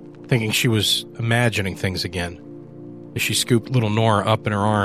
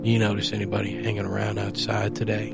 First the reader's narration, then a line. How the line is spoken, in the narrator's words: he asked in that low mumble he used when he was grappling with something uneasy